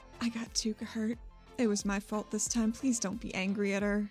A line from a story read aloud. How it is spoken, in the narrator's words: whispers